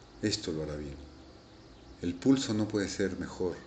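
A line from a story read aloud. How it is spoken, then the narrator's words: Murmured. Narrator (Spanish): murmuré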